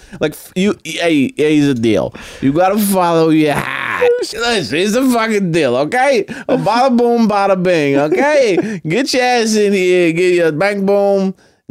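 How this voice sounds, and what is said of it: Thick put-on New York accent. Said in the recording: “her accent was so New York thick”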